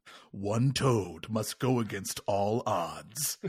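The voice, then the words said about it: Movie trailer announcer voice. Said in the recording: “that's a good movie announcer voice from back in the day.”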